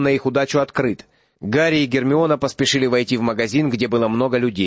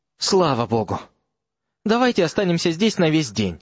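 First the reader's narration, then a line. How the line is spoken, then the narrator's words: Trembling voice. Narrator (Russian): дрожащим голосом сказал Рон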